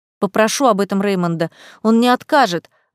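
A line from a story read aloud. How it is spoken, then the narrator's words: Exclaimed. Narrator (Russian): воскликнула я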